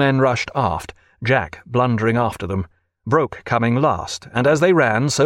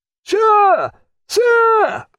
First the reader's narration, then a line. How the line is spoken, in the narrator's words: roared Craddock through the continuing fire of musketry and the shouting of men